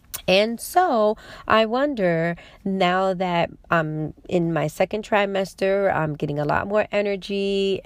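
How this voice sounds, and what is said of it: Congested, stuffy voice. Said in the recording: “you can tell in my voice, that I have some congestion”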